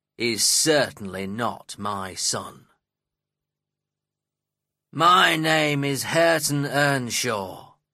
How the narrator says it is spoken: growled the young man

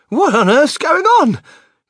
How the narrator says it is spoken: cried Grandma Josephine, waking up suddenly

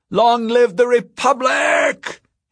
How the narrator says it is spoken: cried

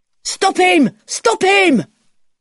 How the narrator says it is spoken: someone shouts

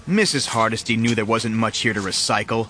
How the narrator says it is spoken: I said

